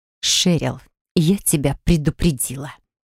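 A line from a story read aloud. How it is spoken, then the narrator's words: Nervous hiss. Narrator (Russian): прошипела Нереид, нервно оглядываясь назад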